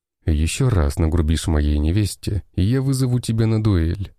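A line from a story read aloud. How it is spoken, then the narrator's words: Calm voice. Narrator (Russian): спокойным голосом произнес я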